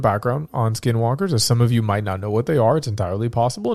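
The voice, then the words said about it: Sick-sounding voice. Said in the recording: “instead I get sick and you get to hear my smooth, silky podcast voice.”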